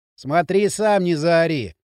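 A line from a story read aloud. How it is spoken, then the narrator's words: Grumbled. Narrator (Russian): пробурчал Дрын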